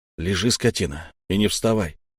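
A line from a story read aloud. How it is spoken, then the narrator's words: Quiet, furious. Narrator (Russian): негромко и яростно проговорил Петр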